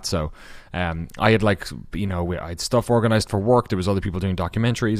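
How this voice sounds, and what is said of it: Irish accent. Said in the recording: “I'm Irish in case the accent isn't obvious enough”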